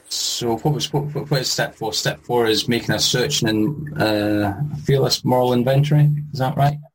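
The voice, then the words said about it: Speaks with a noticeable accent. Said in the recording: “We love your accent. You have the accent.”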